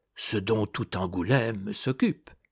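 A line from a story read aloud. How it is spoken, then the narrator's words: Low voice. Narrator (French): dit du Châtelet à voix basse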